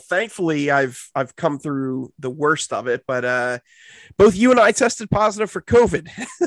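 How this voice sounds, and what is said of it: Sick, under-the-weather voice. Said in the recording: “in case you can't tell by my voice, I am uh, under the weather as well.”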